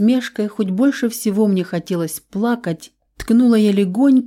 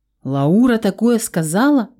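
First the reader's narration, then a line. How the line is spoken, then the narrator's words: Exclaimed. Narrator (Russian): воскликнул он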